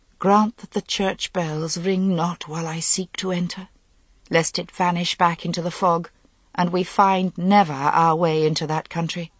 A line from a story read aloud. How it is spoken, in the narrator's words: prayed to herself, not even a whisper